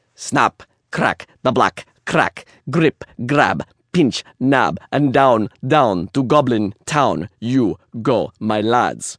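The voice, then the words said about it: Slight put-on Russian accent. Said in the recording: “I gave it a little bit of a Russian accent”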